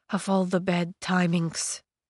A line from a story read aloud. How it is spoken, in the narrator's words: he muttered